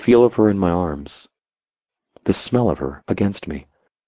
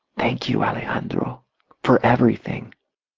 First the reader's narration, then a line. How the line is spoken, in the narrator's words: to whisper in my ear